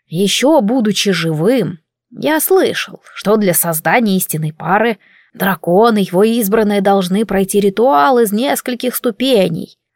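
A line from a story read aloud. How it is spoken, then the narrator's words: Plain, wise man. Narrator (Russian): ответил мудрец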